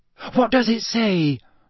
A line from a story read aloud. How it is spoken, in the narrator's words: Hermione asked breathlessly